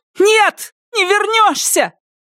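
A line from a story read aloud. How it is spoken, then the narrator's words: Shouting woman. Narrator (Russian): крикнула она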